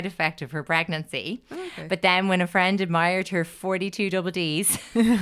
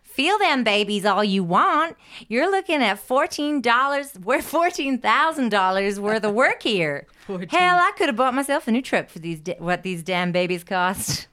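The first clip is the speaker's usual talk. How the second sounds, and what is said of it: Put-on accent, well done. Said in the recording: “Fantastic accent.”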